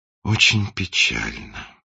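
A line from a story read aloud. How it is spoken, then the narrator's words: Sighing. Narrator (Russian): вздохнул принц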